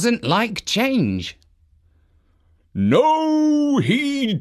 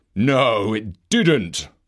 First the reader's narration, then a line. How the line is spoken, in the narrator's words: replied Father Christmas gruffly